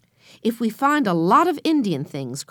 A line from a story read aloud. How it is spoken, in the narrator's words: cried Henry